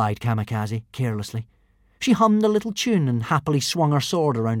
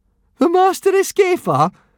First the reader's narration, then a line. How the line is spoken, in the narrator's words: snorted Fishlegs